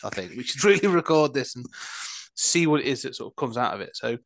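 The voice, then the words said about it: Man with an unusual accent. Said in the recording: “speaks with a weird accent that I both love and am jealous of”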